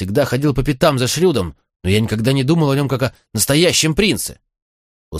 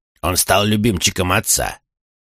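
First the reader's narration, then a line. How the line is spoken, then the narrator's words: Growled. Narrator (Russian): прорычал Чейд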